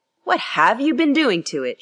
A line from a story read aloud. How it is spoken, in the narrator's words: she exclaimed